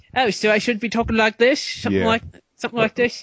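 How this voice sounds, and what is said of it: Put-on English London accent. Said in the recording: “He has an English accent. ... A little bit more London. ... Not an English accent. ... A little bit more London. Close enough.”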